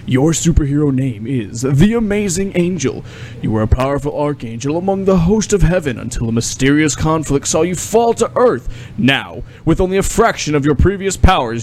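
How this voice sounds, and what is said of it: Dramatic heroic reading voice. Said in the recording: “read it in a heroic voice”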